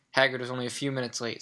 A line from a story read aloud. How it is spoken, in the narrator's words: said Hermione